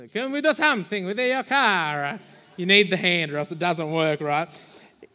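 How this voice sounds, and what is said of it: Put-on Italian accent, weird. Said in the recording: “Except he's, what are they, Italian?... That was a weird one, right?... I'm ditching the accent from now on”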